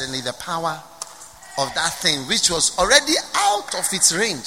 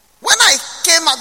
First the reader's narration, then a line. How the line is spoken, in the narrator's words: he shouted at the people